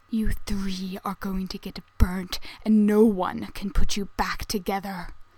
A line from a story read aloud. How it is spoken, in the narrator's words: he hisses